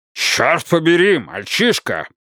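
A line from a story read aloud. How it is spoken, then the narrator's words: Barking. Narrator (Russian): рявкнул Уодворд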